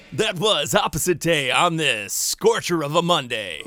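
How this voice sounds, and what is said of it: Radio DJ voice. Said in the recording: “nice DJ voice”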